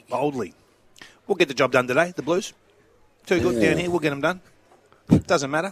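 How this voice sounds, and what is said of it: Good impersonation of someone. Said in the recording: “That's a good impersonation.”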